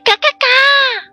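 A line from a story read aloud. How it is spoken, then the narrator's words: Loud quacking. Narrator (Chinese): 小鸭子大叫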